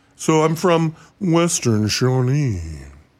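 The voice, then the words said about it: Put-on local accent, exaggerated lips. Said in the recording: “to get that accent proper ... What you do is you overemphasize the use of both lips.”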